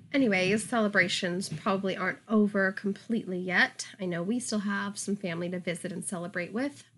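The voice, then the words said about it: Hoarse, nearly lost voice. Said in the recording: “Excuse my voice. I am getting over a cold, so my voice is gone”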